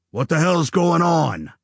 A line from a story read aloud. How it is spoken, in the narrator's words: he growled